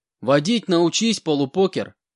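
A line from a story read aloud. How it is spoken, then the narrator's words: Shouted out window. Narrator (Russian): выкрикнул я в окно, пролетая мимо УАЗа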